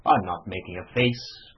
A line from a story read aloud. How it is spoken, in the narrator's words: growled the annoyed Ossipon bearishly